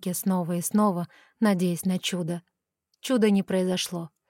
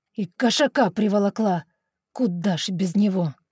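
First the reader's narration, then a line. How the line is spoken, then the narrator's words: Angry, spitting. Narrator (Russian): Зло сплюнул мужчина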